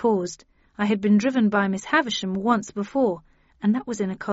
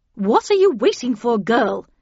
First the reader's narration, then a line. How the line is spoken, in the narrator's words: said Havisham impatiently